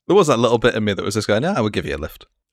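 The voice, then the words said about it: Northern English accent. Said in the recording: “a postman driving from the north of England ... my accent doxes me anyway ... That is not a southern man.”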